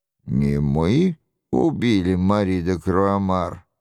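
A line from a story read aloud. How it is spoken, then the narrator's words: Grumbling. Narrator (Russian): проворчал Роншероль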